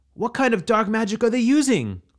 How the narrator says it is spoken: cried out

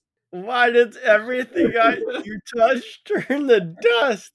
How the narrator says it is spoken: I scream that from the top of the mountain

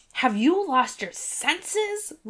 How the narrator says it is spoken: Lucien shouted above the drums

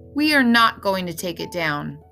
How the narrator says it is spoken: I said to him firmly

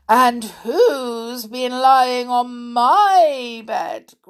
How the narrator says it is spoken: growled Mother Bear

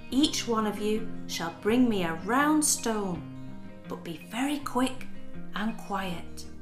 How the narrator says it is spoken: whispered the mother

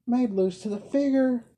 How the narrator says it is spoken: cried the blind girl, laughing heartily

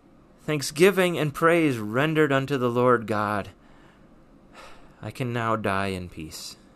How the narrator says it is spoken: remained silent for a couple minutes, and then he stood up and just exclaimed

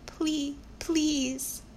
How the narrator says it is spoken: his whimpers had always sounded like

